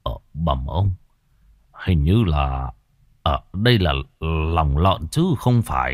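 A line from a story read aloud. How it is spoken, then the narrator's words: Frowning old man muttering. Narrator (Vietnamese): lão Khâm khẽ cau mày lẩm bẩm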